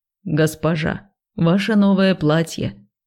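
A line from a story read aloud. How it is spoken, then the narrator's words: Solemn announcement. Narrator (Russian): торжественно объявила Пышка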